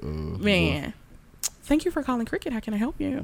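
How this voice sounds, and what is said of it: Put-on customer service phone voice. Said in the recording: “She got that bill collector.”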